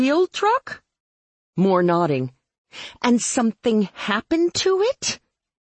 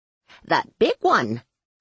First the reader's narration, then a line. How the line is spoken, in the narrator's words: she told me cheerfully